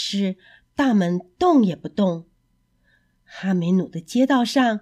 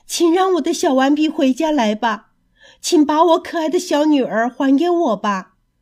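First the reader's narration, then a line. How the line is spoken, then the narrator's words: Sorrowful crying out. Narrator (Chinese): 悲伤的叫着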